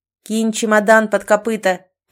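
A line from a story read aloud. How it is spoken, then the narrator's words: Shouting. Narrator (Russian): прокричал Ричард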